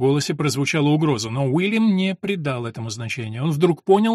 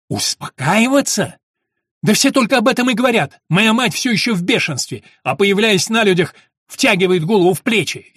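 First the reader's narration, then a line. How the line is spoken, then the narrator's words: Furious shout. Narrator (Russian): яростно закричал он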